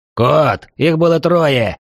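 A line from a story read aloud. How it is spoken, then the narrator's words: Swordsman shouting. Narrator (Russian): крикнул мечник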